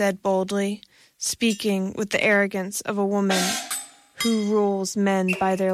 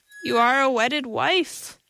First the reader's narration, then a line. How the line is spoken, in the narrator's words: Dagmar laughed shrilly